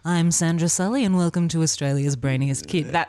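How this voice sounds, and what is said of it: Much lower-pitched newsreader voice. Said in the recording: “I do Sandra Sully. I do that pretty well. ... You just got to go down like 2 octaves.”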